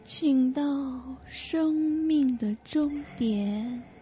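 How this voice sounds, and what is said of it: Miserable, hoarse female voice. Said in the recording (Chinese): “凄惨而沙哑的声音”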